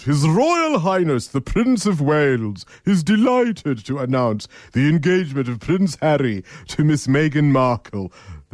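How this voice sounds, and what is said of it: Put-on posh British royal accent. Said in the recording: “let me try my best royal accent.”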